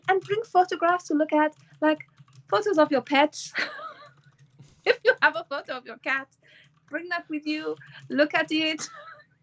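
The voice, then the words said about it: Poor put-on Spanish accent. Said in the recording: “I'm gonna apologize for my rubbish Spanish accent”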